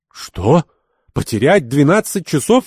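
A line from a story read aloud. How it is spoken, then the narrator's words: Shocked exclamation. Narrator (Russian): воскликнул Ахмед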